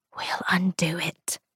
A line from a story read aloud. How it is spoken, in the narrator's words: she whispered into Ruth's shoulder